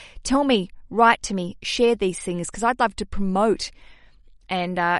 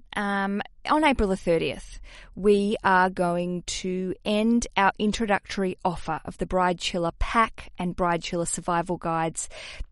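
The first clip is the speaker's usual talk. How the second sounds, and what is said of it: Put-on American accent. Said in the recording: “I'm going into my American accent.”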